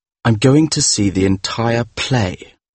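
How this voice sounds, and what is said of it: Bitter tone of voice. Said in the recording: “in a bitter voice”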